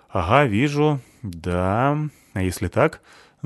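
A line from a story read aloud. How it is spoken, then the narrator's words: Distant mumbling. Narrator (Russian): забормотал он оттуда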